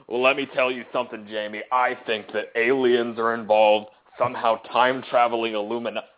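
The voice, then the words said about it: Jesse Ventura impression. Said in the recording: “my Jesse Ventura impression.”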